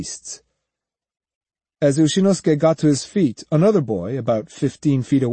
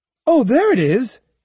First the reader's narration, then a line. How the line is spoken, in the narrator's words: he cried